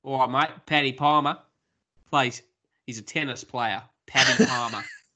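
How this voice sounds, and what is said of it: Put-on Australian accent. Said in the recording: “Patrick Palmer is a name that I feel like should be said in an Australian accent.”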